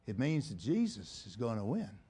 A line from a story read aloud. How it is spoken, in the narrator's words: very quietly, the old man replied